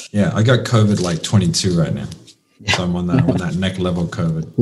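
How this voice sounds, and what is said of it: Husky, sick-sounding voice. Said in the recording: “I am actually a little bit sick, right? So you can hear my voice sounds extra sultry today. No, that's not a microphone setting.”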